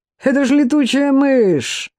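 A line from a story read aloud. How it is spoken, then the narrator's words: Contemptuous shout. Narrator (Russian): Один из его партнеров презрительно крикнул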